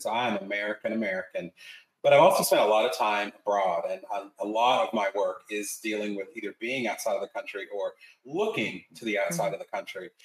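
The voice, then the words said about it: North Carolina American accent. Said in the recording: “I'm from North Carolina, as you can hear from my accents.”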